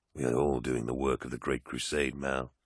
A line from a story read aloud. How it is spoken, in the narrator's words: said Loken tightly